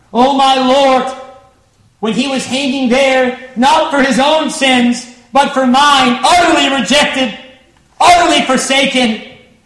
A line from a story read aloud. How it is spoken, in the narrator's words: He cried out of the agony of His heart